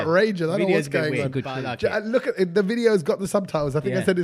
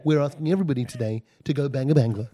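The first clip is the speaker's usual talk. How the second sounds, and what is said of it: Funny put-on accent. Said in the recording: “That was a funny accent.”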